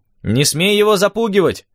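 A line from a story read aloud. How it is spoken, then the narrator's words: Shouted after someone. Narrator (Russian): крикнул я вслед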